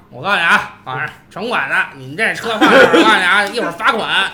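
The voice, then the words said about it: Imitated city-inspector accent, convincing. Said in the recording (Chinese): “就你丫这口音，... 太像了 ... 像啊”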